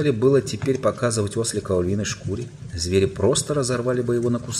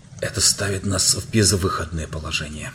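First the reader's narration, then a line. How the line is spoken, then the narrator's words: Whispered. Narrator (Russian): прошептал Юстас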